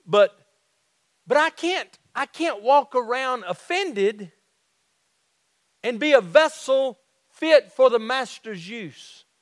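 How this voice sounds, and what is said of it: Southern twang. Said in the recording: “my Southern twang”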